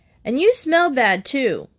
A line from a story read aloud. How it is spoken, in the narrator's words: Blake still shouting